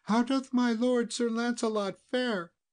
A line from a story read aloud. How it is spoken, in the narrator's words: cried aloud